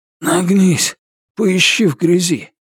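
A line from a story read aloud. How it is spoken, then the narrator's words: Groan. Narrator (Russian): Ричард застонал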